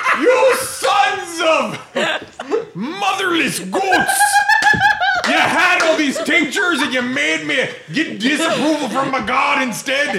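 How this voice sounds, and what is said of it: Angry yelling. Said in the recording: “I really think you should stop yelling at us. ... I'm going to order you to stop yelling at us.”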